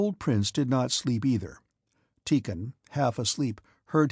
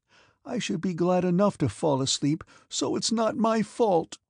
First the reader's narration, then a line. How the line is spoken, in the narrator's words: her voice quivered like that of a child about to cry